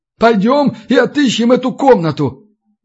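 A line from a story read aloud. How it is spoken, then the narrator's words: Howling. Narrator (Russian): Взвыла сирена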